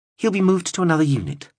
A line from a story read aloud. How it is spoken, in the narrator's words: replied Vincent calmly